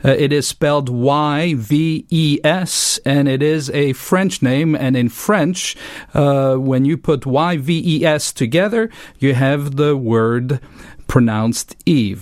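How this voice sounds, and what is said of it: French-speaking Swiss accent. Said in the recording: “as you can tell from my accent, I'm from overseas, from the French-speaking part of Switzerland”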